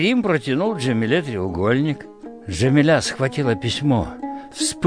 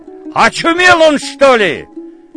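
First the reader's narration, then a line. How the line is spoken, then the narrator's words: Shouting after someone. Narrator (Russian): закричали ему вслед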